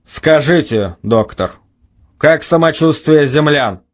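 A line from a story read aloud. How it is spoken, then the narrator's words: Cold question. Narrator (Russian): холодно спросил старший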